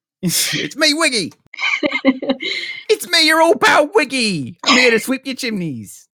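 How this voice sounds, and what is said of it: Exaggerated put-on British accent. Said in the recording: “when he does a British accent, it'll be the one that you do, which is terrible ... It was just pretty flawless, actually”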